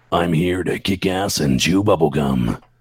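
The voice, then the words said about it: Gruff Duke Nukem action-hero voice. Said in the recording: “doing my voice, but intending it to sound like Duke Nukem”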